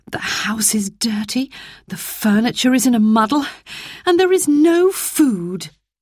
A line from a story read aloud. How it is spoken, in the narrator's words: she sighed